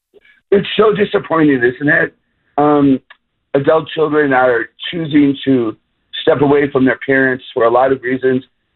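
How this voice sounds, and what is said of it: Rough, strained voice. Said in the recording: “sorry about my voice today. It's just terrible.”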